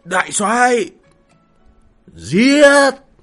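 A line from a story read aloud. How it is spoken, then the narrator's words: Shouted command. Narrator (Vietnamese): gào lên ra lệnh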